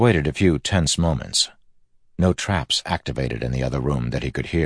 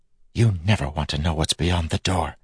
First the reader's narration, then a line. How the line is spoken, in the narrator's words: Telson whispered